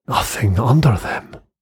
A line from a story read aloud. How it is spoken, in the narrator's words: breathed Anderson